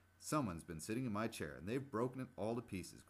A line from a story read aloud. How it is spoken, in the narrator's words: cried Baby Bear